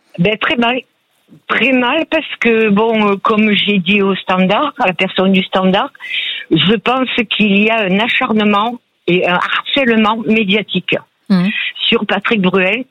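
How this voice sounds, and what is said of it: Southern French accent. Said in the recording (French): “vous avez un bel accent du Sud qui ensoleillé”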